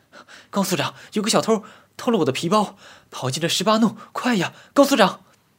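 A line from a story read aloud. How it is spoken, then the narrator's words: Panicked breathless young woman shouting. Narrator (Chinese): 一个年轻的女人惊慌地 气喘吁吁地喊道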